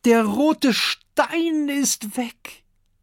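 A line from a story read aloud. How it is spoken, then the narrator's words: Calling out. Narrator (German): ruft Duftikus Dickbauch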